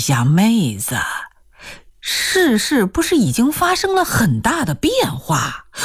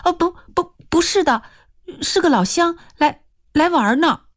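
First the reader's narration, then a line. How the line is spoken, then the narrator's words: Hurried. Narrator (Chinese): 易晴娥急忙说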